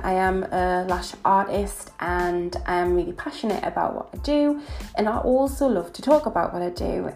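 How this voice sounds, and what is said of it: Northern English Newcastle accent. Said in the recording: “I am from Newcastle. As you can probably tell from my accent, I am a northern girl”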